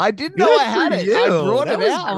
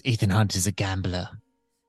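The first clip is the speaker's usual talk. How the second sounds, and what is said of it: Imitates another person's voice. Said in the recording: “what a good Sean Harris ... that Sean Harris impression”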